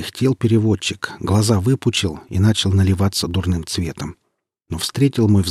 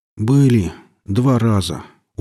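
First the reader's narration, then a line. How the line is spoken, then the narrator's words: Dejected drawl. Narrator (Russian): уныло протянул Игорь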